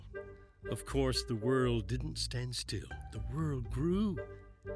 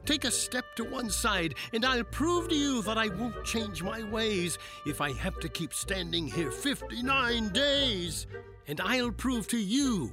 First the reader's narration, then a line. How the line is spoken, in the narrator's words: yelled the south-going Zax